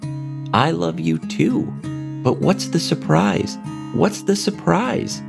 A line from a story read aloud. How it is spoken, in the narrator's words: Fiona chirped over and over again